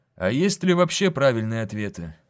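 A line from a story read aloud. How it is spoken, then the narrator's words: Plain. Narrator (Russian): спросил Локин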